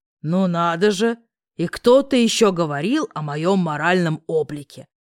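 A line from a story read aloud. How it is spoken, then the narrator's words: Mocking snort. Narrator (Russian): хмыкнул Корф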